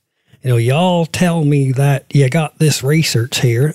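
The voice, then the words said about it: Poor attempt at North Carolina accent. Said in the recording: “it sounded like this ... That was not a North Carolina accent, by the way. But yeah, it was a brutal attempt.”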